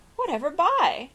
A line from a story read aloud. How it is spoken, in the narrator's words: cried Mrs